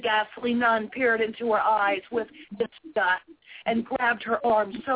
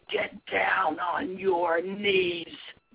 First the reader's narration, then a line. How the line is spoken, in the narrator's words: In a vile, hissing voice, the assailant ordered